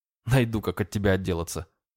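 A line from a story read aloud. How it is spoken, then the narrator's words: Snorting. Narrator (Russian): хмыкнул я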